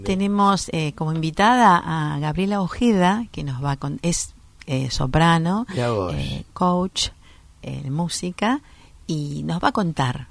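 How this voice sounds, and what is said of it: Polished radio announcer voice. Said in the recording (Spanish): “vos tenés esa voz de locutora como corresponde”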